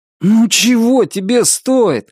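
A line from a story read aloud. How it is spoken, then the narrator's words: Pleading. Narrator (Russian): взмолился Норрис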